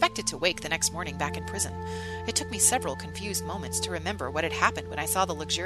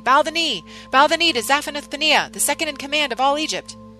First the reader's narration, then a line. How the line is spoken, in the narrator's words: by shouting before me